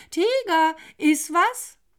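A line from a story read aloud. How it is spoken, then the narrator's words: Teacher calling out. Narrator (German): die Lehrerin rief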